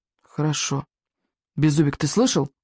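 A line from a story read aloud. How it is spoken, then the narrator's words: Stern whisper. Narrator (Russian): строго шепнул Икинг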